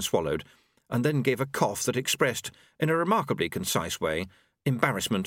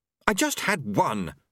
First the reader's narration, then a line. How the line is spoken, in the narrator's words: snapped